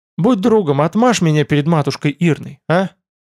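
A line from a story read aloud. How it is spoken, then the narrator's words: Pleading. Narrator (Russian): просящим тоном проговорил Тмор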